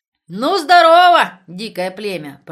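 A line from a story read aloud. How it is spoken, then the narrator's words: Booming bass. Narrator (Russian): пробасил Влас Петрович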